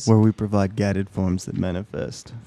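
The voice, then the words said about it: Announcer-style radio voice. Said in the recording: “Bro's put on his radio voice.”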